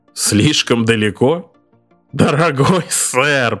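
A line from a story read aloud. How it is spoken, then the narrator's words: Bursting into laughter. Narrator (Russian): Пэттис разразился хохотом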